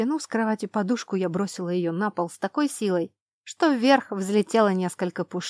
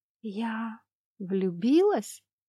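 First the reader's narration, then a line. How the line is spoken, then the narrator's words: Whisper with a giggle. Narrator (Russian): Шепот сорвался с губ вместе со смешком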